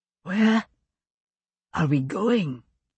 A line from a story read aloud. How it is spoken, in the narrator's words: Jerry wheezed